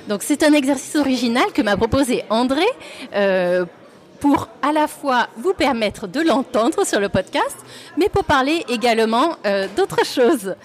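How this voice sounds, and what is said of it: Lilting southern French accent. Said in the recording (French): “elle a un petit accent chantant qui vient de Provence, du sud, d'Italie. On ne sait trop, mais euh, on ne sait trop, mais on sait que c'est chantant”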